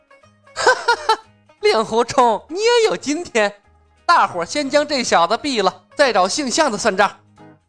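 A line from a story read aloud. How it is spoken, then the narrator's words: Loud mocking laughter. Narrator (Chinese): 青城派方向突然传来了一声哈哈大笑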